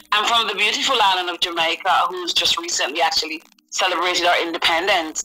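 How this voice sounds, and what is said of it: UK accent with Caribbean undertones. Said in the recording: “I know they're hearing that UK accent ... but I'm hearing another accent in between ... I hope you're hearing a Caribbean accent.”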